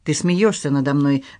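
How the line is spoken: Sharp tone. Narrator (Russian): резким тоном сказала Поль

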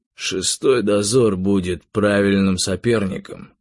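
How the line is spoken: Plain, after a pause. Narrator (Russian): сказал тигр наконец-то

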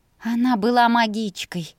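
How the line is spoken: Grumbled. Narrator (Russian): проворчала

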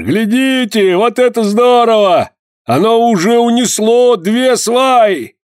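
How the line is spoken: Loud calling out. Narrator (Russian): Они громко перекликались

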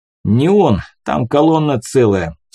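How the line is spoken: Through clenched teeth. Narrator (Russian): сквозь зубы ответил я

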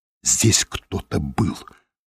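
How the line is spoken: Whispered. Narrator (Russian): прошептала она

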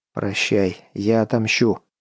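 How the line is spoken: Said quietly. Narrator (Russian): произнес он негромко

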